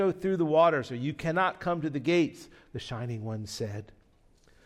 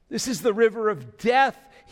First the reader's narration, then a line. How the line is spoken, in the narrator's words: he cried